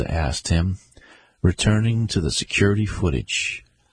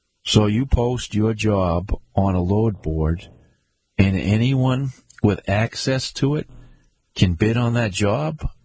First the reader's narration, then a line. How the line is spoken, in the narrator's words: Garza asked him